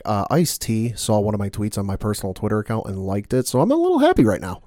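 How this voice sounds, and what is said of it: Excited, giddy voice. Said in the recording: “I sound a little excited ... is extremely giddy”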